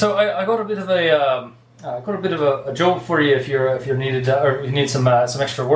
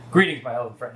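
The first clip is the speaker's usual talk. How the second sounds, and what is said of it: Put-on Irish accent. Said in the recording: “am I cracking an Irish accent again? ... That accent.”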